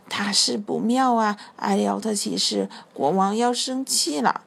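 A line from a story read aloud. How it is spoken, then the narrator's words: Quiet whisper. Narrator (Chinese): 他小声说着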